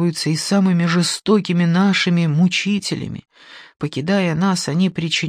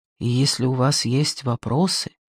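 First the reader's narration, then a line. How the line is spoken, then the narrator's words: Quiet parting words. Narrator (Russian): тихо проговорив напоследок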